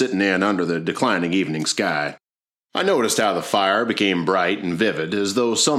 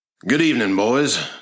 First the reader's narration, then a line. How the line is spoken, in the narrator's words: said Plummer in his rolling baritone voice